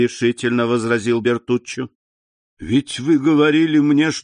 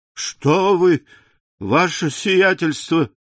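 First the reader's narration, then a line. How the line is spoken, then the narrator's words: Contemptuous exclamation. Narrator (Russian): воскликнул Бертуччо с презрением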